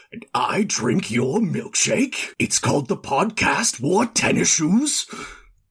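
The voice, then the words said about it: Daniel Day-Lewis impression. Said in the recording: “my terrible, terrible impressions ... do an impression of Daniel Day-Lewis ... It's pretty good.”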